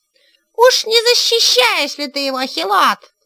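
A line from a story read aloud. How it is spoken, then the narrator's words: Piercing shout from crowd. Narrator (Russian): выкрикнули из толпы пронзительным голосом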